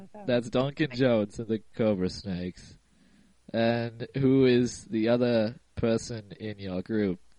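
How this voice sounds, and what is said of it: Congested voice from a cold. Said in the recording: “Today I have the cold. Cough, cough. And that is why my voice sounds different.”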